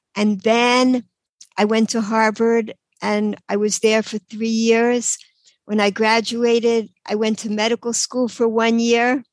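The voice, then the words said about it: New York accent. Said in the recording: “New York, you could probably tell from my accent.”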